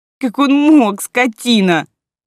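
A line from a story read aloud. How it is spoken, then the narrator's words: Sobbing. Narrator (Russian): рыдала Лера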